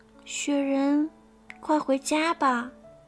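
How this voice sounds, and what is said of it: Soft, quiet voice. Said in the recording (Chinese): “小声地说”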